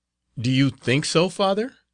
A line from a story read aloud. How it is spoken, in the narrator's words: cried the novice with vivacity